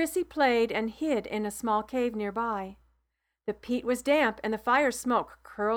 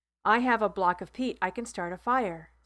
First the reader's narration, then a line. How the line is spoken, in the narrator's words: said Laverne